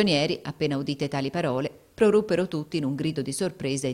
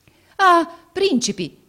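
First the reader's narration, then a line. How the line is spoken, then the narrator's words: Exclaimed. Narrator (Italian): esclamò egli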